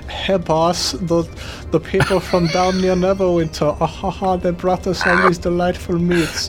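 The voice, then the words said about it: Character voice with odd put-on accent. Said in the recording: “You got to do the different accent. ... It's like Tommy Wiseau and Arnold Schwarzenegger.”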